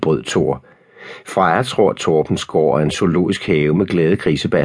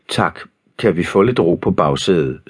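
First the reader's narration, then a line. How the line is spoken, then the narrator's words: Sighing father. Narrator (Danish): sukkede Thor og Frejas far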